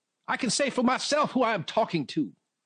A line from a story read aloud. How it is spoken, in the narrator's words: Buford snapped